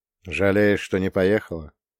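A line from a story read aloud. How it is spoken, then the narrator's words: Gentle, smiling. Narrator (Russian): ласково улыбнулся я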